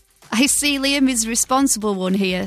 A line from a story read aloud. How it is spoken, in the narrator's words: Scott laughed